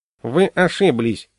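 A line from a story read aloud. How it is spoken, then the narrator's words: Nasty voice. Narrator (Russian): гнусным голосом сказал я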